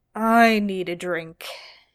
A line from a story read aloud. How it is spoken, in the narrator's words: Dean grumbled